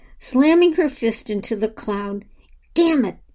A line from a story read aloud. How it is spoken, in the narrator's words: she exclaimed